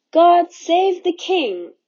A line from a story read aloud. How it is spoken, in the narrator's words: the people had shouted so triumphantly